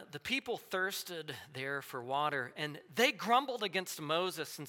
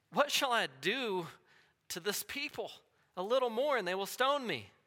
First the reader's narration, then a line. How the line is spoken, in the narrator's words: Moses cried out to Yahweh, saying